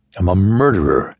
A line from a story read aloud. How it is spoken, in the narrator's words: Harry groaned